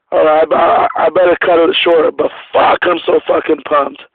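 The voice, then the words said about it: Hoarse, shot voice, hard to understand. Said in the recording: “Sorry, guys, if I'm hard to understand. I my voice is kind of shot”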